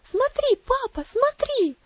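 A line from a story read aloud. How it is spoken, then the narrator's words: Shouting. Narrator (Russian): закричала она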